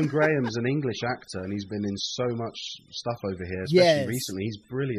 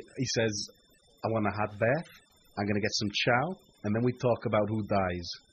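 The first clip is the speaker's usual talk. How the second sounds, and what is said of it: Put-on American accent. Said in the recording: “I'm going to do my best American accent ... Better than my American accent.”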